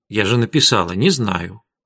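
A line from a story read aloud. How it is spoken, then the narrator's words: Calm reply. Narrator (Russian): спокойно ответила Арина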